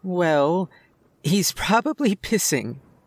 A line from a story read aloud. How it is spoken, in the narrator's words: said, hardly containing her laughter